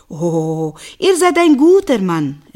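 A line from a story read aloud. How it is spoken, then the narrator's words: Called back. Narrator (German): rief zurück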